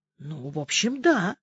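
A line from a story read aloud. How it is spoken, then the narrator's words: Mumbling. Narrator (Russian): замямлил парень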